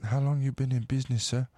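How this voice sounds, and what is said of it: Put-on thick accent. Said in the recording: “thick accent”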